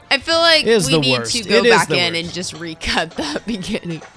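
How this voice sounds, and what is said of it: Congested, stuffy voice. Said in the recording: “I'm so congested right now. If you guys haven't heard it in my voice this entire show, I'm like fighting the coughs and the snots”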